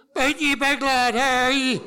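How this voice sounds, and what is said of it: Melodic Belfast accent. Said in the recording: “the distinctive melodic strain of a Belfast accent”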